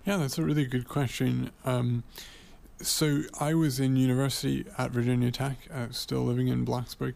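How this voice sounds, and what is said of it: Slight English accent. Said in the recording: “a bit of an English accent”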